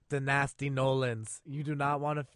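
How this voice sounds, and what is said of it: Unidentified put-on accent. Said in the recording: “What accent was that?”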